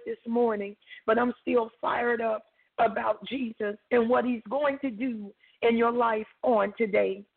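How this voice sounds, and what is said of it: Slightly hoarse voice. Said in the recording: “apologize for my voice. I'm a little hoarse”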